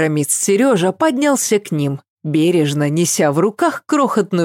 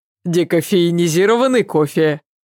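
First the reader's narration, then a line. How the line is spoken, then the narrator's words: Laughing. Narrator (Russian): Ася засмеялась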